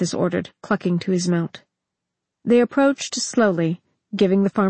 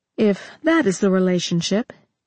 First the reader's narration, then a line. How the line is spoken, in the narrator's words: Jaina said